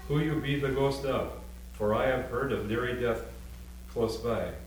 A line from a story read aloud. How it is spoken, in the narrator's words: she said sharply